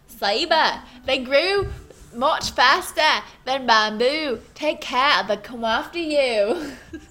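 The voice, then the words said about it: Put-on Australian accent. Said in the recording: “What kind of accent should I do? ... I was Australian.”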